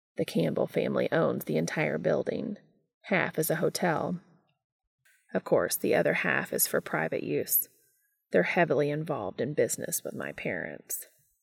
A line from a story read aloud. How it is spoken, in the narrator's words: Cass explained very quietly